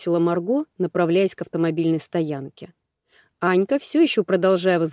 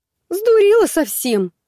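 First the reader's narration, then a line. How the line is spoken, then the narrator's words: Indignant frightened squeak. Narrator (Russian): возмущенно пискнула, напуганная такими действиями подруги, Анна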